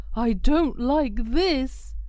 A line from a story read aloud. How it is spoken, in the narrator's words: barked Bob